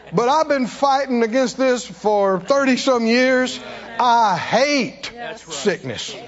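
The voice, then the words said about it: Raised, animated voice. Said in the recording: “I know I'm raising my voice. I know I'm animated about this.”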